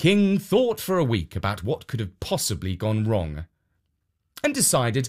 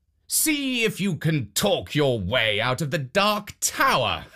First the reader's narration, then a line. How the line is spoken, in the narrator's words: the king called out